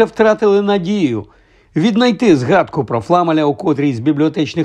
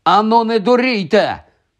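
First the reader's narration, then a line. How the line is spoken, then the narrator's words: Shouted. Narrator (Ukrainian): крикнув їм він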